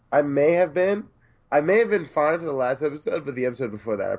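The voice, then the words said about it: Sick-sounding voice. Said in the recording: “I don't know if you can tell from my voice or from the coughs you're going to have to endure through this podcast, but I've been sick for quite some time.”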